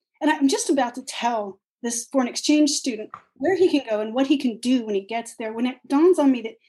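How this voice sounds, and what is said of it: Usual voice. Nothing is said of it.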